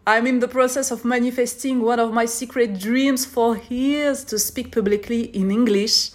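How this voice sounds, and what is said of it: French accent in English. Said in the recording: “I'm a French girl. That's why you're gonna notice this amazing accent. Yes, très français.”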